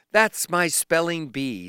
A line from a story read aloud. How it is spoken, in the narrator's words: said Nanny Hannah